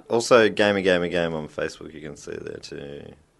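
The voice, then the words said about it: Vocal fry. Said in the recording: “Oh, I did a vocal fry. ... Are we on NPR all of a sudden?”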